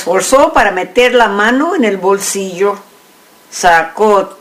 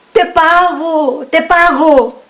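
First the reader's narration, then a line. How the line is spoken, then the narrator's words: Man shouting. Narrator (Spanish): gritó el hombre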